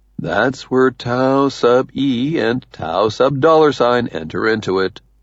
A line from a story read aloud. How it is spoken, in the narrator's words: Uncle Red says soothingly